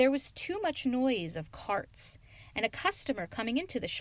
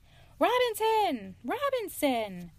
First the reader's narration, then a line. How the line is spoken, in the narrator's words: Mumby called out anxiously